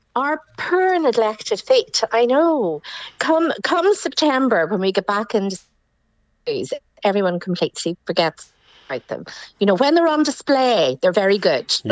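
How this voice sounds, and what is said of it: Lovely regional accent. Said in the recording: “that lovely accent”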